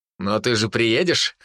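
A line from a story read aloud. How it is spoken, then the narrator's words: Chuckling. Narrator (Russian): хохотнул я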